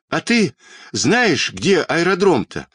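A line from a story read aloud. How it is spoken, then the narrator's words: Shouted while running. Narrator (Russian): на бегу крикнул Петька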